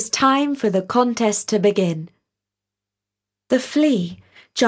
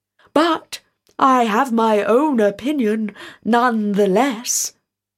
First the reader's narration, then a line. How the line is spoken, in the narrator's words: exclaimed the king